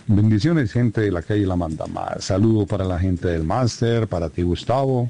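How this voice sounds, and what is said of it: Deep radio announcer voice. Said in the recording (Spanish): “Se mantiene pura voz de locutor ... tremenda voz que tiene”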